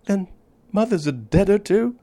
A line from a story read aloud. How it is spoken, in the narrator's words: cried the little girl, sobbing bitterly